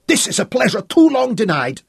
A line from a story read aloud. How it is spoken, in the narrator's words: Katinka screamed, her own fury increasing